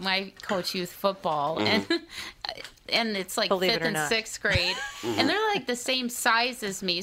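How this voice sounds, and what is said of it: Minnesota accent. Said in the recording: “You got that Minnesota accent.”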